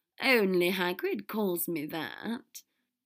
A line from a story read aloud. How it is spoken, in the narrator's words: Draco laughed